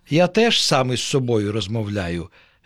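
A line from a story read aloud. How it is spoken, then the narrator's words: Plain. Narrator (Ukrainian): відповів опеньок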